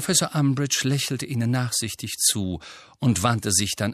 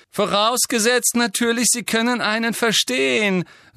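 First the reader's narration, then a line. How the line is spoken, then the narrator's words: Loud. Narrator (German): sagte Malfoy laut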